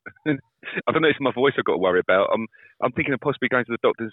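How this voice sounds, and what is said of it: Slightly hoarse voice. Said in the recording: “a slightly hoarse-sounding”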